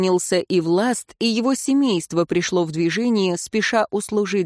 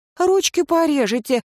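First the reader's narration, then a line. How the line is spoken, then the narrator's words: Awed exclamation. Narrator (Russian): чуть ли не в священном трепете воскликнула супружница власта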